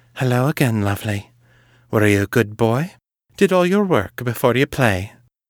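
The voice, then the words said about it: Husky, seductive female character voice. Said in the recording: “in a husky voice”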